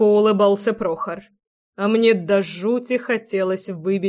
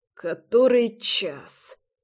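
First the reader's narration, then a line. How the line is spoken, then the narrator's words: Hoarse, pained croak. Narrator (Russian): прохрипел я, сжимая гудящую голову руками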